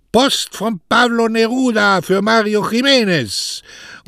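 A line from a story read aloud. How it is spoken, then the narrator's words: Telegraphist calling from afar. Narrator (German): Als der Telegrafist dann aber schon von weitem rief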